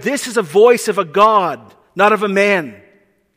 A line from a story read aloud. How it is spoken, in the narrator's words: They shouted